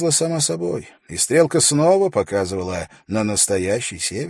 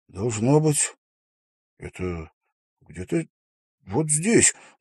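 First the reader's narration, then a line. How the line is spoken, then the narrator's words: Mutter. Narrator (Russian): пробормотал он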